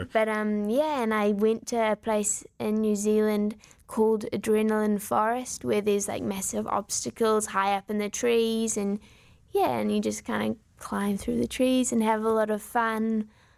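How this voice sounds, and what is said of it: New Zealand accent. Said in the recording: “right now listeners are hearing this beautiful New Zealand accent”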